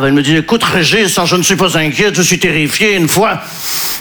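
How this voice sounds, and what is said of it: Put-on Belgian French accent. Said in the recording (French): “je prends l'accent belge parce que je ne sais pas faire l'accent ukrainien”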